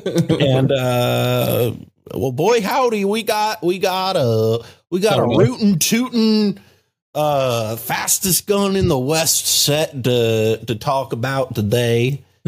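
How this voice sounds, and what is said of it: Put-on Southern accent. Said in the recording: “that's a Southern accent, not a Western accent.”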